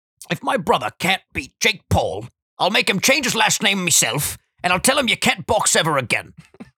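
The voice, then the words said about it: Imitates another person's voice. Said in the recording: “I can't do a good impression, but I'll try my best.”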